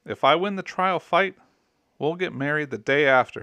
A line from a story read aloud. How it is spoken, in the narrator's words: exclaims